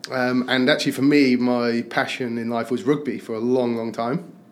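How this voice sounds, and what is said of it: English accent, not French. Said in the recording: “as you can tell, I'm not French, but by my accent. ... I was born in the northwest of England, South Cheshire.”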